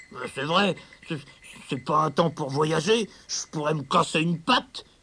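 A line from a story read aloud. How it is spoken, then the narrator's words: Grumbled. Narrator (French): bougonna Marcel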